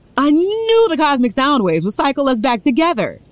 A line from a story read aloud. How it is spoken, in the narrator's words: shouted